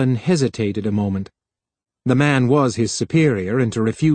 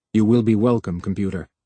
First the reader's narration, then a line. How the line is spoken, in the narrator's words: he said stiffly